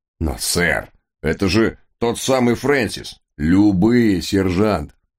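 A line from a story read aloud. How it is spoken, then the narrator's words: Sharp commanding bark. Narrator (Russian): рявкнул мистер Хаггард, душа конфликт в зародыше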